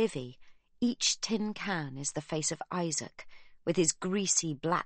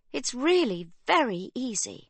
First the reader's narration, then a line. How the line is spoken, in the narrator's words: says Livy cheerfully